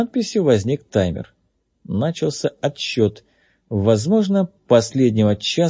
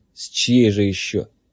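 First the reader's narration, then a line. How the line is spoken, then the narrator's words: Grumble. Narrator (Russian): проворчал Кей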